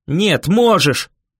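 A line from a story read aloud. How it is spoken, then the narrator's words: Bark. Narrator (Russian): рявкнул я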